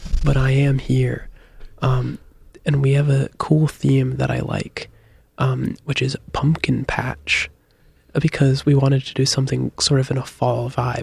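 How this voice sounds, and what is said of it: Voice sounds worse, unwell. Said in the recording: “my voice sounds worse because I'm not feeling my best today”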